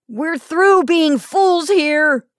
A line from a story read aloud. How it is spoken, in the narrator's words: he cried